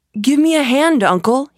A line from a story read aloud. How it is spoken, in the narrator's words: cried